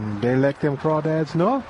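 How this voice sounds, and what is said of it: Poor put-on Cajun accent. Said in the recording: “worst Cajun impression”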